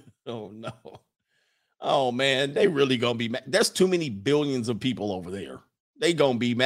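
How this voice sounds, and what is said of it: Usual voice. Nothing is said of it.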